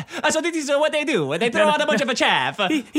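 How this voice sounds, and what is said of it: Put-on Italian accent. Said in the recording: “can you say that again with an Italian accent?”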